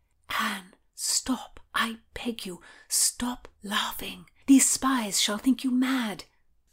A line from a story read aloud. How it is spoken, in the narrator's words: Margaret said under her breath